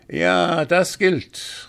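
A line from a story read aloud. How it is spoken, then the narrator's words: Called out. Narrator (German): rief der falsche Kaufmann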